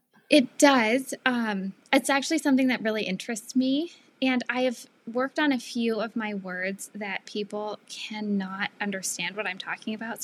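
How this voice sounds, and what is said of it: Hard-to-place Seattle-area American accent. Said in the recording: “your accent, I cannot place it. And I'm usually good at that. ... I am from the Seattle area. ... I don't know if Seattle has an accent.”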